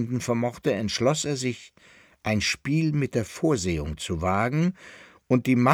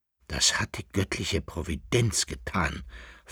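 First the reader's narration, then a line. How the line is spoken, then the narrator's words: Agitated young male whisper. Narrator (German): flüsterte der Sohn des Kaisers, sein Herz, das heftig pochte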